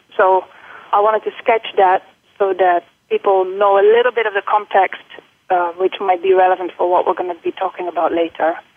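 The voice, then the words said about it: Dutch accent with British influences. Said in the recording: “my accent. So I am Dutch, and I've lived for 23 years in the Netherlands. And then I went for my graduate studies to the UK, where I've stayed for 8 years ... Singapore. So all that, I think, is in the accent”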